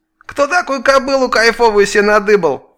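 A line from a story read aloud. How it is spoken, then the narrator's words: Distant muffled shrill nasty voice. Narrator (Russian): глухо донесся издалека визгливый противный голос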